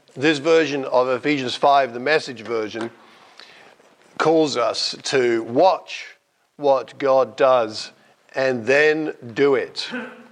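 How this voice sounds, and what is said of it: Voice affected by a cold. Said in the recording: “sorry about my voice. I've got a rotten cold.”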